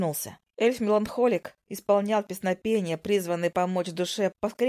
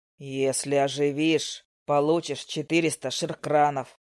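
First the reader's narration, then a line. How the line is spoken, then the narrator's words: Deep bass promise. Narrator (Russian): басом пообещал жирный усатый воин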